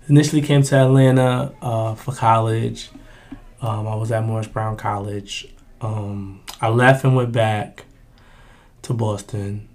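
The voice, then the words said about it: Boston accent. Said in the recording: “You can hear the Boston accent though.”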